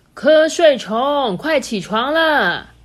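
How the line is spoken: Loud. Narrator (Chinese): 哥哥 大声的说

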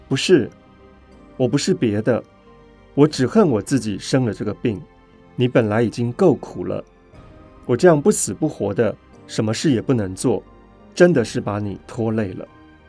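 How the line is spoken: Choked sobbing after pause. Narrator (Chinese): 许久之后，方才哽咽着说

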